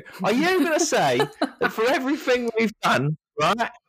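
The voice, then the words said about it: Put-on Cockney accent. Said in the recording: “I don't know why this person's got an accent ... Is a bit, ... Cockney.”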